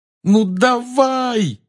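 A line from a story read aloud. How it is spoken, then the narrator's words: Desperate yell. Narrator (Russian): отчаянно завопил он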